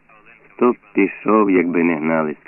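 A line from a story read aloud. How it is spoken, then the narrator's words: Plain. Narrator (Ukrainian): сказав Савченко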